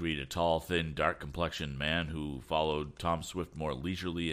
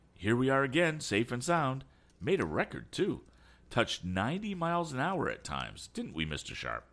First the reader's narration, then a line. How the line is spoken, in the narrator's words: exclaimed